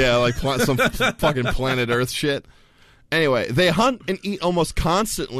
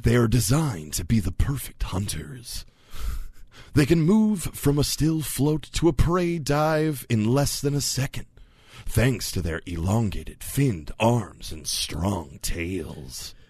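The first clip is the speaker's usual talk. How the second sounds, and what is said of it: Dramatic movie-trailer narrator voice. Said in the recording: “do the movie voice. ... This seems like movie voice time. ... like if the guy who does the movie voices was suddenly on Animal Planet”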